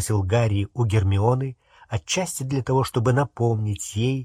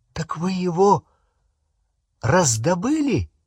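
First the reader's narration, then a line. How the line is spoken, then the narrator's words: Exclamation. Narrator (Russian): воскликнул Рон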